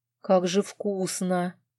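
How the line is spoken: Blissful moan. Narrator (Russian): простонала я, наслаждаясь взрывом вкуса на языке

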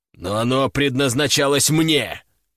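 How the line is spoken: Sharp objection. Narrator (Russian): резко возразил Федор

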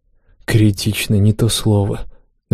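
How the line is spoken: Sighing. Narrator (Russian): вздохнул наш лидер

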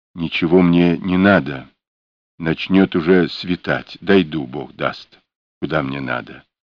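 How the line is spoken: Whispered reply. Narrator (Russian): отвечал тем же шепотом Праксин

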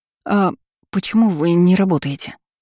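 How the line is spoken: Very frightened. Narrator (Russian): Получилось как-то уж очень испуганно

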